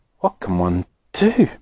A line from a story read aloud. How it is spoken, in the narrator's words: murmured Grandma Josephine miserably